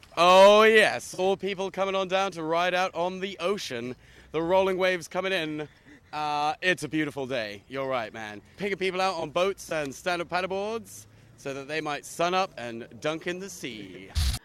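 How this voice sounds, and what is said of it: Cheesy radio DJ voice. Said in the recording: “Best Impression of a cheesy radio music DJ voice”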